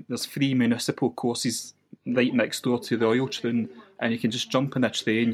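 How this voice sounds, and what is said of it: West-coast Scottish accent. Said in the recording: “you might have guessed from my accent, I'm from the west coast of Scotland”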